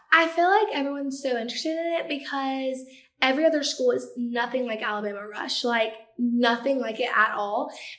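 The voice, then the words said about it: Speaks with a noticeable regional accent. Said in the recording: “accent is 100% real... why would she fake an accent”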